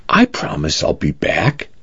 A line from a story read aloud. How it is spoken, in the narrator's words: said softly